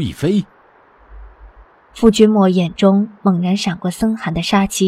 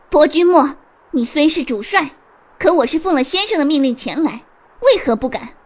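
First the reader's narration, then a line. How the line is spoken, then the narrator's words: Defiant, through gritted teeth. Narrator (Chinese): 尹天雪脸色白一阵，青一阵，忽然一脸豁出去般咬牙道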